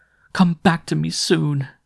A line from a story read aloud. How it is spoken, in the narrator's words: she begged